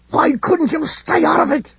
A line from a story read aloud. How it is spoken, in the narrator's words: He snarled